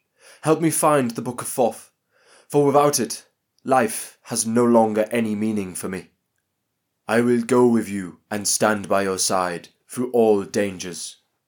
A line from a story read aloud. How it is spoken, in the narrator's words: answered Anheru